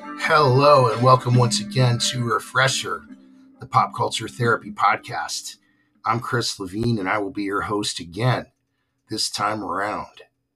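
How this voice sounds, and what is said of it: Hoarse, raspy voice. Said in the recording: “sorry about my voice... I've got about half of it right now... I'm not at full speed... please be patient with my raspiness”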